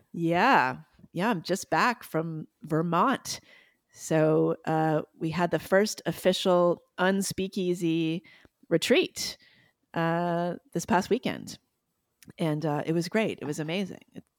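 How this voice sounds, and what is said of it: Husky, worn-sounding voice. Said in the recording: “I'm the one with the sexy voice this week ... I've been talking a lot. I've been on a talking vacation.”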